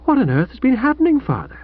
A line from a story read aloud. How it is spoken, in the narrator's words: Old Stoker breathed heavily